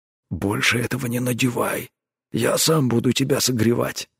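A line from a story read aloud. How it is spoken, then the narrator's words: Gruff mutter. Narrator (Russian): буркнул он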